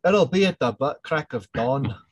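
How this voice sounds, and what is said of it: Put-on Scottish accent. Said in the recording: “in my best Scottish accent”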